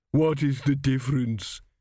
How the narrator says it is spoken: she sobbed

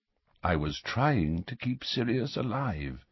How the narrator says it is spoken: said Dumbledore quietly

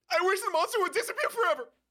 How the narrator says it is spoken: You shriek

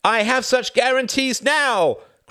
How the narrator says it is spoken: cried Benes in despair

